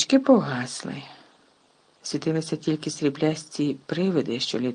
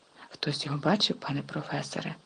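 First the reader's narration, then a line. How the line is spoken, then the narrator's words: Whispered. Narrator (Ukrainian): прошепотів Персі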